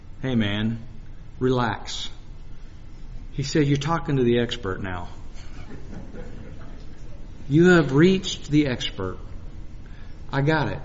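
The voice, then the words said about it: Very relaxed, calm voice. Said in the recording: “in a very relaxed voice,”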